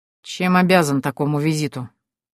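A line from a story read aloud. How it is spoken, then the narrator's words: Grumbled. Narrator (Russian): проворчал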